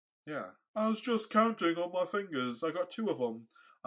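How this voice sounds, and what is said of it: Put-on British accent. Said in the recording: “I don't know why I'm doing British accents.”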